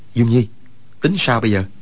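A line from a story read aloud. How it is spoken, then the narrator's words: Lowered voice. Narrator (Vietnamese): Quách Tĩnh hạ giọng nói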